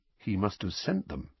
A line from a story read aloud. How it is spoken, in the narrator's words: said Harry quietly, more to himself than to Uncle Vernon